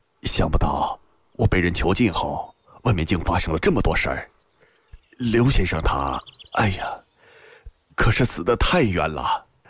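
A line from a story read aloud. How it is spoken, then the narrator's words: Astonished sigh after pause. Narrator (Chinese): 新建很是惊异，半晌才叹道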